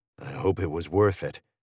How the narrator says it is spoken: I mutter bitterly

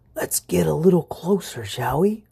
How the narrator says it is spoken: whispered the mouse

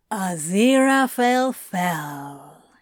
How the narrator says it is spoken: he drawled

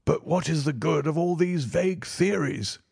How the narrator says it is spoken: cried the banker impatiently

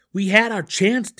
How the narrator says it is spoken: Dinan yelled

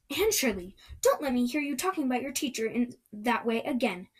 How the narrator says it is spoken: said Marilla sharply

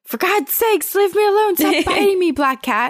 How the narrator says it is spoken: she just yells out

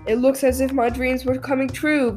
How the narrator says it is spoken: gasped Bomber, puffing up behind

